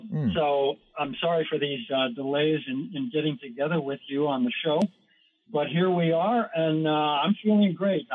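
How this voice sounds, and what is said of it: Hoarse, weakened voice. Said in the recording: “I've lost my voice. I'm just recovering from pneumonia.”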